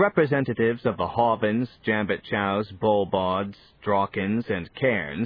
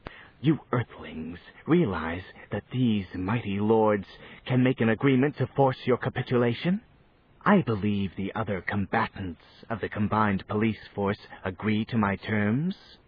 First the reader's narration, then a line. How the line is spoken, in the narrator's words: Lord Slime said with a harsh, acid hiss